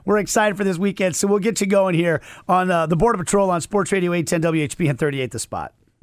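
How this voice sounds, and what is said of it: Voice not recovered, sounds bad. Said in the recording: “my voice has not returned yet. I don't sound good.”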